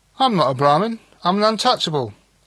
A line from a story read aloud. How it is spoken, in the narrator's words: again declared Banerjee, more cheerfully than ever